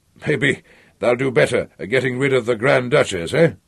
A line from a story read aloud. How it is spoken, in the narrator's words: He laughed, like a wolfhound barking